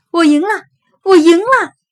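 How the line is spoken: Excited loud laughter. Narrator (Chinese): 小勇笑得特别大声

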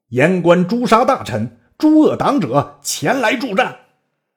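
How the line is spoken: Fierce loud shout. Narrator (Chinese): 袁绍厉声大叫

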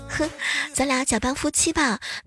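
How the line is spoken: Eerie smile. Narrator (Chinese): 女乘客诡异的一笑

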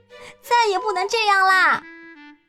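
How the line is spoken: Exasperated shout. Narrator (Chinese): 女农场主看到洛特又把邮递员吓跑了，大叫起来

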